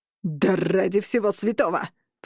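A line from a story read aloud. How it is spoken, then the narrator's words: Roar. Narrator (Russian): проревел лорд Бенегер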